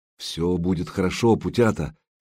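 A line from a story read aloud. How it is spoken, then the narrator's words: Quiet reassurance. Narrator (Russian): негромко произнес Богуслав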